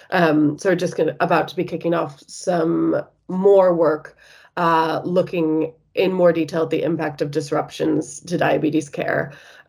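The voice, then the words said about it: American accent. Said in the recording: “as you might be able to tell from my accent, I'm originally from the States”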